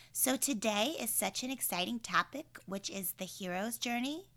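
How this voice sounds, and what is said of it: Scratchy, sore voice. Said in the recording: “my voice is super scratchy today and sore”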